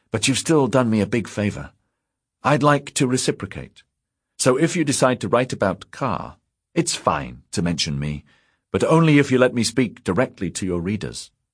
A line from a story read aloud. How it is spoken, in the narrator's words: Fazl said brightly